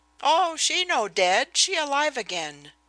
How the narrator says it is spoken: Katie cried out, sobbing

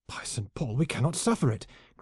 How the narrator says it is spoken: cried Nigel distractedly

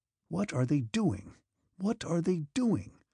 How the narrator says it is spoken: he murmured to himself

